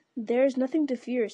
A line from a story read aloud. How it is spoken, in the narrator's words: said Faramir